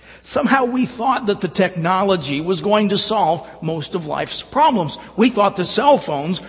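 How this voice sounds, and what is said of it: Usual voice. Nothing is said of it.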